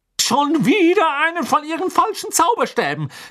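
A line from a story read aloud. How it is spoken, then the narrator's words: Called out. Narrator (German): rief sie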